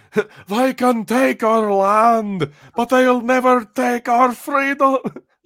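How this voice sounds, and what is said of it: Poor put-on Scottish accent. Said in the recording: “my best shitty, like, Scottish accent”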